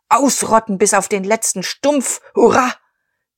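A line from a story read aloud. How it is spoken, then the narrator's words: Thunderous cheering crowd. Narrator (German): Der Kriegerverein donnerte Beifall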